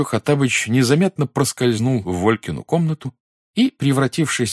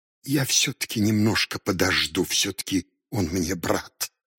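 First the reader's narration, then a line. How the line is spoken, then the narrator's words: Muttered. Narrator (Russian): пробормотал Хаттабыч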